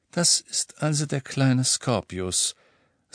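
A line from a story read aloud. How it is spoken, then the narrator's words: Quiet voice. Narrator (German): sagte Ron mit leiser Stimme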